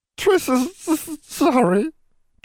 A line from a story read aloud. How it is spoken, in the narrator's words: Triss wailed, blowing her nose messily